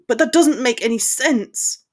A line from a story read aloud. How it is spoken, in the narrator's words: Harry exclaimed